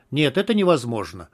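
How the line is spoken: Sharp. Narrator (Russian): резко сказал егерь

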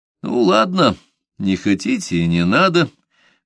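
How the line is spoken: Conciliatory tone. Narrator (Russian): примирительным тоном сказал он

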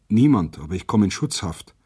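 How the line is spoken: Plain. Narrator (German): antwortete abermals

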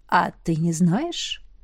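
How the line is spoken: Ingratiating question. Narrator (Russian): вкрадчиво поинтересовался Логвин

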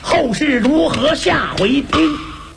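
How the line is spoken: A loud cry. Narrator (Chinese): 牛王一声叫

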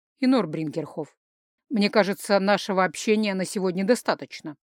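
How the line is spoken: Dry remark. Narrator (Russian): сухо заметил Рихард

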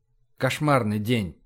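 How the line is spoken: Muffled murmur. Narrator (Russian): пробормотал, прижимаясь щекой к ее волосам

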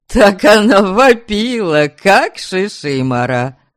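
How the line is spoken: Laughing. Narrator (Russian): смеялся Стояня

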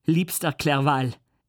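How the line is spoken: Called out. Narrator (German): rief ich

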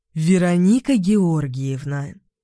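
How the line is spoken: Almost solemn tone. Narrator (Russian): начала я чуть ли не торжественным тоном

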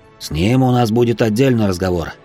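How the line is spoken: General's snort. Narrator (Russian): хмыкнул генерал

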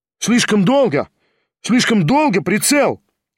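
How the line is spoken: Rapid shout. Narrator (Russian): стремительно прокричал Кириллов

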